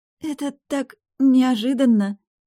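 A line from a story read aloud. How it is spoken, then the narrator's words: Timid murmur. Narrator (Russian): пролепетала Анна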